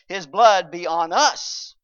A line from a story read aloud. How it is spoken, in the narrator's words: they cried